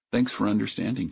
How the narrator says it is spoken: she said

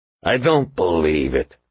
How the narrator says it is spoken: the ghost growled

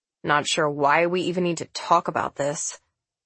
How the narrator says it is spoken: asked Sez gruffly

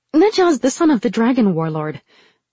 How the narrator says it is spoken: Rin blurted out

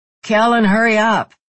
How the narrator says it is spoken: Drew yelled through the wall

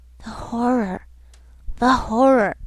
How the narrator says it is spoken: I seemed to hear the whispered cry

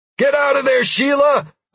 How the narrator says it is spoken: I shouted

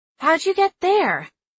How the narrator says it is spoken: Theo blurted out

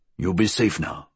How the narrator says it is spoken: he grunted

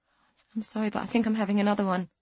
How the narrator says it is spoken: she mumbled

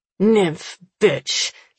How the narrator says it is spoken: he snarls

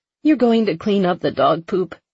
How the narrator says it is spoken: She asked, her voice trembling

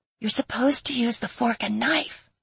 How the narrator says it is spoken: she whispered

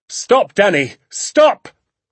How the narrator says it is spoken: he shouted

